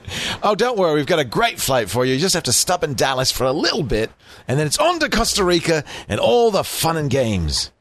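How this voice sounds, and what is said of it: Exaggerated, poor put-on British accent. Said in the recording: “That's an outrageous British accent. ... It's terrible. ... Isn't that the Australian guy who wrestled the alligators? ... He was doing my Crocodile Dundee.”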